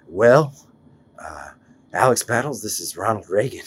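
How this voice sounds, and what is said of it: Imitates another person's voice. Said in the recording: “I'd like to do an impression ... what's my best impression? ... That was my Reagan.”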